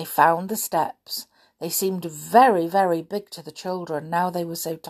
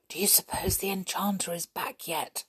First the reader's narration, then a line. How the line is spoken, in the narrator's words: whispered Molly